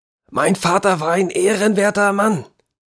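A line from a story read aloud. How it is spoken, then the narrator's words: Excited voice cracking. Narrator (German): rief aus seine Stimme überschlug sich vor Erregung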